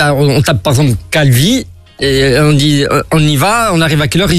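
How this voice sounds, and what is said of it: Usual voice. Nothing is said of it.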